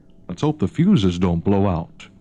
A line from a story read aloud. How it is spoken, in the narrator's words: muttered Nick Pastor darkly